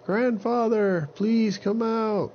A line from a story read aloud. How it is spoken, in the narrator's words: Aven yelled again